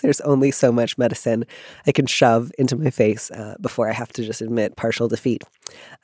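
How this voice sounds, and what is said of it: Congested voice from a cold. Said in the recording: “I sound like I have a cold”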